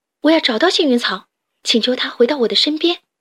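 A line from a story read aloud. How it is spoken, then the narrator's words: Shouting. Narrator (Chinese): 她大喊道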